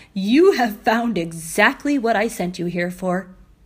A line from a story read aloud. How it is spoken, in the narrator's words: said with a little laugh